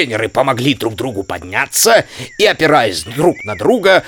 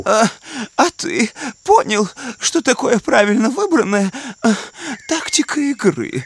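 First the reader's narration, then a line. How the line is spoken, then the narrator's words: Muttering. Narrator (Russian): Бормотал Лосяш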